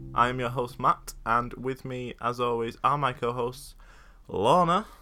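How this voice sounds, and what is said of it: Weird, slightly performed presenter voice. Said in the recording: “weird voice ... Slightly performing”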